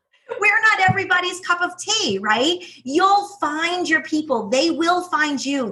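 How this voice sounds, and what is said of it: Strong New York accent. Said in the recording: “my accent, my New York accent, which is brutal”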